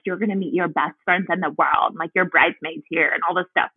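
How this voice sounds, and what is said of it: Sorority girl voice. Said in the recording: “I love the sorority girl accent.”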